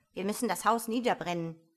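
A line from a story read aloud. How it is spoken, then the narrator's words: Rabbit calling out. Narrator (German): rief das Kaninchen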